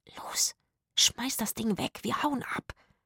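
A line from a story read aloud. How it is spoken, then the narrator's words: Whispering. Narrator (German): flüsterte Zora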